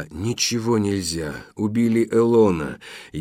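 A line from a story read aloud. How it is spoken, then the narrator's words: Whisper. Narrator (Russian): Она прошептала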